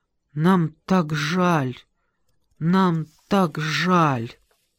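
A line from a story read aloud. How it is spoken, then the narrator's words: Tearful silent whisper. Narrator (Russian): В глазах у него стояли слезы, и он беззвучно шептал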